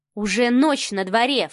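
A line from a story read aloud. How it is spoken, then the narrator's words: Scoffing snort. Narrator (Russian): фыркнула Мари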